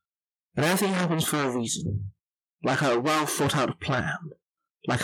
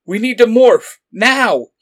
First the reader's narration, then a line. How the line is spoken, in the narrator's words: he shouted